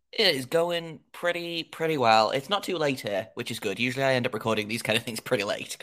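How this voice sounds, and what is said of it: English accent. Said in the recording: “I don't know if your listeners can tell from my accent, I am in England.”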